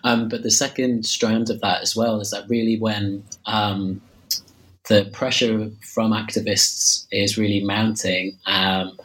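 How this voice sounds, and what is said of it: Slightly hoarse voice from cold. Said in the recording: “I'm losing my voice slightly. I've got a bit, a bit of a cold.”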